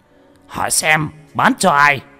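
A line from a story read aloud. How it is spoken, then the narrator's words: Furious trembling shout. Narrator (Vietnamese): Cục trưởng phân cục giận đến phát run lên, hét lớn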